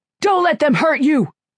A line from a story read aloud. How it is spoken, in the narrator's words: Falcone shouted back at her